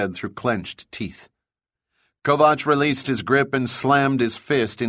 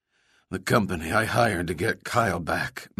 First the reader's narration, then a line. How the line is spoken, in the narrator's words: Max mumbled, wishing more than anything to be able to massage some feeling into his face where it had gone numb